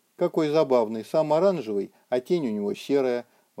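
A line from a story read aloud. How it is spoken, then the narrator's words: Smallest giant exclaiming. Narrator (Russian): воскликнул самый маленький великан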